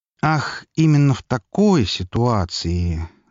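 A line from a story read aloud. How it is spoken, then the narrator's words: Thoughtful drawl. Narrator (Russian): задумчиво протянул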